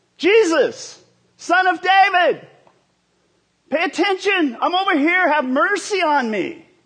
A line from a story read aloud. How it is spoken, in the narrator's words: He yelled